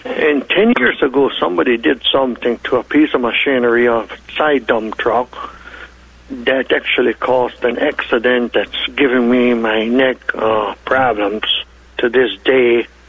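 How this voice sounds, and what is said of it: German and Eastern European accent. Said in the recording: “due to my German, Russian, Ukraine, and Hutterish accent, you might have a problem understanding me”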